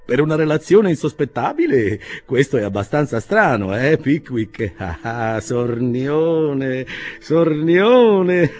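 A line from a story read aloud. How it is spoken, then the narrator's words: Booming laughter. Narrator (Italian): E rise fino a far tremare i bicchieri sulle mensole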